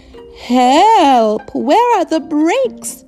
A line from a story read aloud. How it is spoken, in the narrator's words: shouts Mummy Pig as she goes down the hill